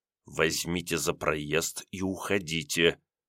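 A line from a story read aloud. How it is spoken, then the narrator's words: Sinister whisper. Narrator (Russian): Перейдя на зловещий шепот, сказал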